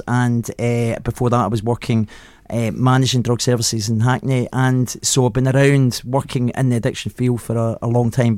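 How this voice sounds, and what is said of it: Glaswegian Scottish accent. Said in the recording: “it's bloody obvious from your accent ... you grew up in Glasgow”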